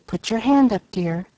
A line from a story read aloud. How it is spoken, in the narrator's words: Molly whispered